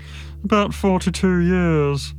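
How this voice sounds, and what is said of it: Bored-sounding voice. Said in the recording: “in a bored voice.”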